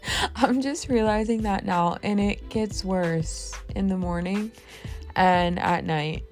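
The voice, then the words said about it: Raspy voice. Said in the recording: “My voice is so raspy.”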